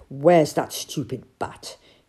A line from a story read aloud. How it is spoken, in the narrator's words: he asked crossly